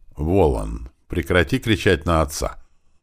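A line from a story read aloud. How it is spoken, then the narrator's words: Stern, brooking no argument. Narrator (Russian): строго сказала она тоном, не допускающим пререканий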